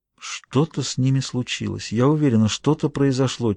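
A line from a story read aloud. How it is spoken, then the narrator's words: Quiet answer. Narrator (Russian): тихо ответила София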